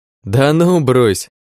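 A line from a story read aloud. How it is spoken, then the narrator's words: Laughing. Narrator (Russian): рассмеялся Лёша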